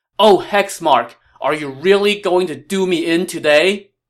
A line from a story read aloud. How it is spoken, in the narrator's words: Liu Bei now whipped his horse even harder and shouted